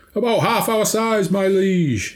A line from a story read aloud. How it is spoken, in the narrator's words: shouted back, his words distorted by the megaphone